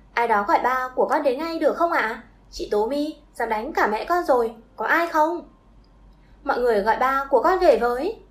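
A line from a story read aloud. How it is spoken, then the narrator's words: Loud shout. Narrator (Vietnamese): nó liền đỡ bà ta dậy rồi nhìn xung quanh hét lớn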